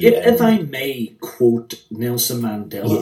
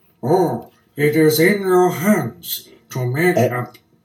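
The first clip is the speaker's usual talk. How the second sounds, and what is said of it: Nelson Mandela voice impression. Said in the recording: “do the voice of Mandela ... you're very good at the Mandela voice”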